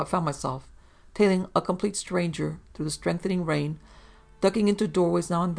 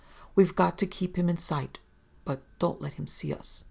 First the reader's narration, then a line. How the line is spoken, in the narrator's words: whispering